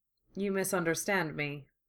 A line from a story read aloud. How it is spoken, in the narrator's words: Kenobi said evenly